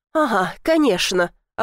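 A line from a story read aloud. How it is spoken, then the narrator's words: Snapping through pain. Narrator (Russian): огрызнулась, несмотря на боль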